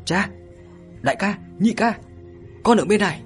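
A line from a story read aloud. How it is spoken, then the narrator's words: Excited call. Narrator (Vietnamese): Mộ Dung Tiểu Dung phấn khởi kêu lên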